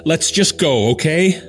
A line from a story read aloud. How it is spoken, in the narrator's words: I shout